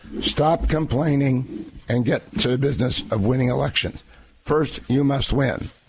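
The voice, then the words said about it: Hoarse, weakened voice. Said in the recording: “I have laryngitis ... hopefully have a little bit more voice”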